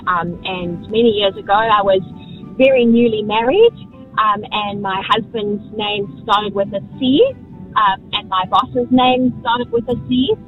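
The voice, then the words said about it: South African accent. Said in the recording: “as you can probably hear from my accent, I'm not from New Zealand. I'm from South Africa.”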